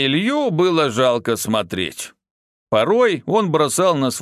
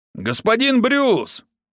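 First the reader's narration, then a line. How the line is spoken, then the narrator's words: Shout. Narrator (Russian): прокричал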